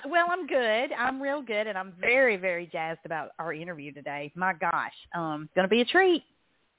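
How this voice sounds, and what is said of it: Southern accent. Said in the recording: “my southern accent”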